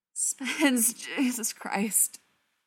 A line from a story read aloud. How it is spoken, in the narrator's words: Brendan moaned